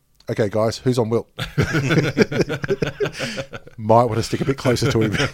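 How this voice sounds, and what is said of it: Impression of a basketball coach. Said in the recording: “This is my impression of the coach on the other team.”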